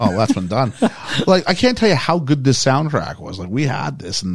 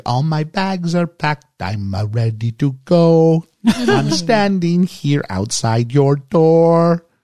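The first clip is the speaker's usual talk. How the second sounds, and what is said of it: Sung lyrics in French accent. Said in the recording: “Her French accent's very pronounced.”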